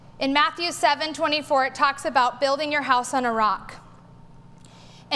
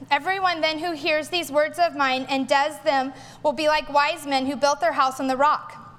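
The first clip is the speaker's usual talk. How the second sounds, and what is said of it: Reads aloud quickly. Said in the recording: “going to read it quickly”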